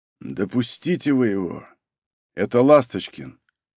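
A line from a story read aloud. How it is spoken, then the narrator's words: Barely audible. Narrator (Russian): еле слышно сказал Егор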